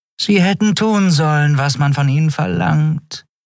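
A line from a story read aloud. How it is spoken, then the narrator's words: Purring. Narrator (German): schnurrte Shi'ar hinter seinem Rücken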